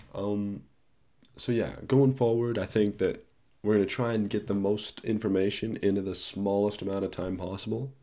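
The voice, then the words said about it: Congested, stuffy-nosed voice. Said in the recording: “I'm a little bit sick, so maybe you can tell from my voice. Nose is kind of a little bit clogged”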